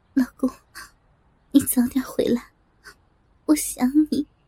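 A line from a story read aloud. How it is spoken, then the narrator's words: Slightly tearful. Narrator (Chinese): 她略带哭腔的说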